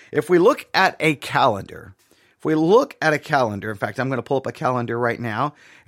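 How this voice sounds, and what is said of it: Sick-sounding voice. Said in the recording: “I've been sick. You can probably hear it in my voice.”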